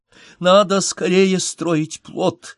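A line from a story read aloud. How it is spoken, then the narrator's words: Tragic exclamation. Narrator (Russian): воскликнула Надежда Николаевна, трагически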